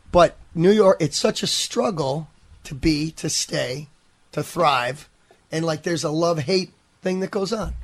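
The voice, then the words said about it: New York accent. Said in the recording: “why do you sound so New Yorker? You're from Buffalo.”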